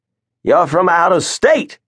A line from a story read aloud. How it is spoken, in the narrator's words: he barked at Prophet